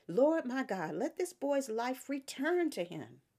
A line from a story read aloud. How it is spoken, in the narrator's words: cried out to the Lord